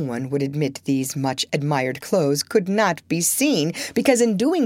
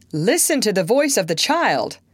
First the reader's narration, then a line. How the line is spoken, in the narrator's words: exclaimed his father